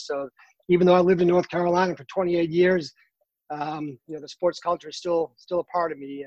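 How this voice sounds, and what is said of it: Slight Boston accent, dropped R's. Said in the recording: “I'm originally from uh, Boston, Massachusetts ... I hear up, it a little bit ... I drop my R's ... you'll definitely hear my accent”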